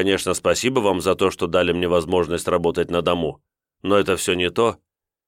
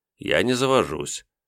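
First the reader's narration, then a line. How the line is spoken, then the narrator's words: Grumbling mutter. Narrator (Russian): буркнул я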